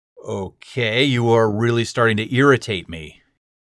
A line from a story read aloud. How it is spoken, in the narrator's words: he said, his voice getting louder